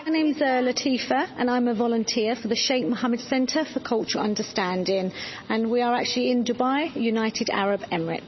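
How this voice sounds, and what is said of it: London English accent. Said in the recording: “I actually come from the UK. I'm a Londoner. Maybe you can tell by my accent.”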